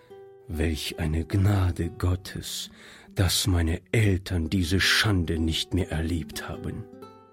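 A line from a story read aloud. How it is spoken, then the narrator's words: Quiet muttering to himself. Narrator (German): sagte Monsieur Joubert leise vor sich hin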